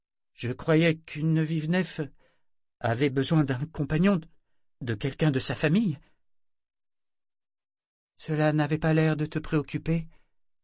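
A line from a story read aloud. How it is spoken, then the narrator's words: Stammering. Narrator (French): fit Yéma en bégayant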